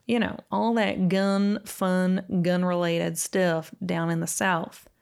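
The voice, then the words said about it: Poor put-on Southern accent. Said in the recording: “That is a terrible Southern accent”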